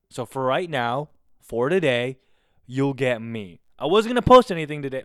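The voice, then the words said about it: Loud, near-screaming voice. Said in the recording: “I peaked the mic again ... I'm a little much. I'm screaming a little too much, guys. I'm screaming a little.”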